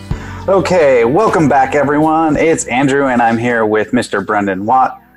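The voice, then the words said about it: Polished radio-host voice. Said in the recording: “you even have a radio voice. I like it. ... I try to get in the radio voice zone.”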